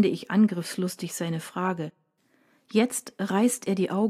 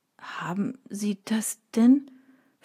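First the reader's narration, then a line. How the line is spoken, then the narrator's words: Hesitant, reluctant question. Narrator (German): fragt zögernd, als wolle er die Antwort gar nicht wissen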